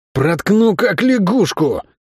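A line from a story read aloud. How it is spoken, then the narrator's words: Hoarse man's warning. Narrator (Russian): хрипло предупредил тип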